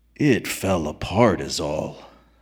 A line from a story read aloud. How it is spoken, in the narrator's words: said McDunn gravely